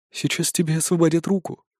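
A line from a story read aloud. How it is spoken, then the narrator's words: Sugary voice. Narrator (Russian): сладким голосом произнес Кемаль Соренто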